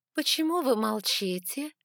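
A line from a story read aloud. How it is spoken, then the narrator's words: Languid voice. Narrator (Russian): спросила королева томным голосом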